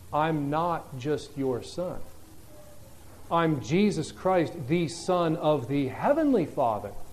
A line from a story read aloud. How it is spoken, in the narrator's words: he's gently reminding them